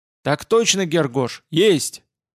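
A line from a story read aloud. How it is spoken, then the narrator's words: Watchman's loud bark. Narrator (Russian): гаркнул сторож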